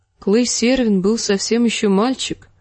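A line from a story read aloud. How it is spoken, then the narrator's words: Sad remark. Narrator (Russian): грустно заметила Кейтлин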